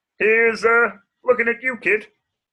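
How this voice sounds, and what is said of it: Kermit the Frog character voice. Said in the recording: “Kermit the Frog ... my impression was getting worse ... that was Kermit the Frog in Casablanca”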